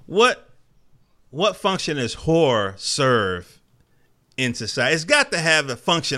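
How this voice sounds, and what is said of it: North Carolina accent. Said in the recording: “my North Carolina accent coming out. I can't say that last OR.”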